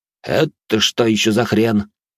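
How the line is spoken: Grumble. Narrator (Russian): проворчал Вальс

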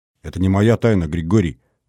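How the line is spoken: Stern, strained. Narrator (Russian): строго сказала Исаева, сделав над собой усилие

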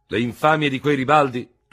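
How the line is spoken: Thundering. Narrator (Italian): tuonò il generale Ferò

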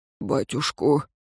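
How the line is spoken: Grumbled. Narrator (Russian): Риген буркнул

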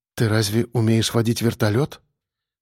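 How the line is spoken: Quiet question. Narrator (Russian): спросила тихо

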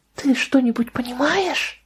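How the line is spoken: Whisper. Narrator (Russian): прошептала Лидия

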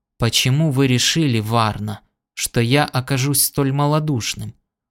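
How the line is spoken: Hollow, muffled voice. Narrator (Russian): глухо сказал

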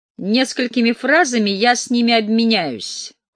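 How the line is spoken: Cold declaration. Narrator (Russian): холодно заявил я

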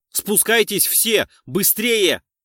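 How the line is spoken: Shouting. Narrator (Russian): закричал я

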